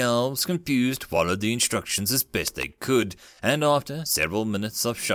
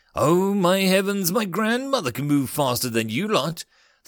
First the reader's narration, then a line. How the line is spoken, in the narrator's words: the human yelled